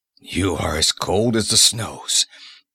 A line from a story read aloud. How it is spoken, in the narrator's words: he mumbled dazedly